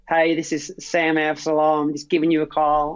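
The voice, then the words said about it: Weak put-on Southern drawl. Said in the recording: “in their Southern draw ... I sound terrible ... my Southern draw ... that was a bad example. Usually it's a bit better than that.”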